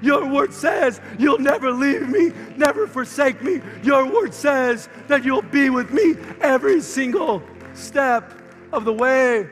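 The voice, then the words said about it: Strained, hoarse preaching voice. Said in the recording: “I'm losing my voice up here”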